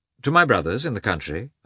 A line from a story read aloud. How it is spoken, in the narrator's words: answered Koznishev